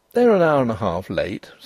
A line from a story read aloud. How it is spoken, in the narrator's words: said Denry calmly